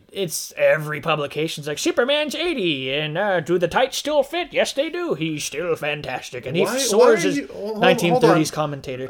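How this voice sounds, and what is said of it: Old-time 1930s commentator voice. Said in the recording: “Why are you doing your Stan Lee voice? ... I was thinking like 1930s, like, hey, it's a bird, it's a plane.”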